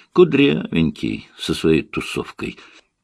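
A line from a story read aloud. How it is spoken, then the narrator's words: Plain. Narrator (Russian): ответила певица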